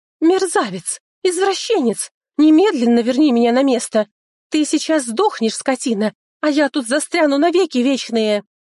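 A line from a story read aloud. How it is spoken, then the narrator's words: Furious screaming. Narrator (Russian): завопила эта красотка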